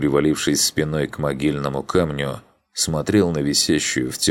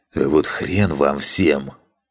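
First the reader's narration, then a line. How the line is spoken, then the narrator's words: Hiss. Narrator (Russian): прошипел я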